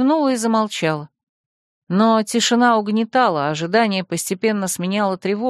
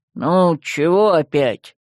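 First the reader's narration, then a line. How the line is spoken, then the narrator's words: Grumbling. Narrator (Russian): заворчал Яр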